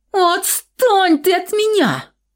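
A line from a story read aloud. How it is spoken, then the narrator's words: Girl yelling, struggling. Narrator (Russian): заорала девушка, вырываясь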